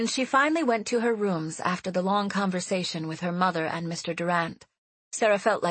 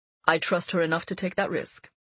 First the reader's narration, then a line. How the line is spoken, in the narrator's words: he replied evenly